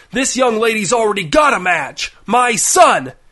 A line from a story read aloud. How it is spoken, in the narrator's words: a man's voice shout